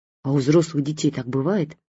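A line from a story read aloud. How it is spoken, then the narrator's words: Frightened female question. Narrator (Russian): испуганно спросила я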